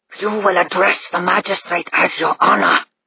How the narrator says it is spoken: he hissed

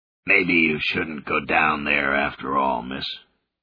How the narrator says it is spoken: Benjamin rasped

